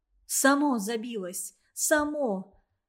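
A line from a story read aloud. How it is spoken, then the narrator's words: Joyful voice. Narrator (Russian): радостно прозвучал в операционной голос Ларисы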